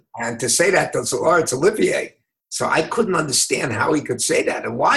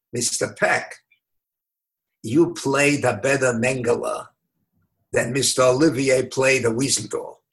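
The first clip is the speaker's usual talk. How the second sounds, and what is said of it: Yiddish-accented impression of Simon Wiesenthal. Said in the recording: “in his sort of Yiddish accent voice”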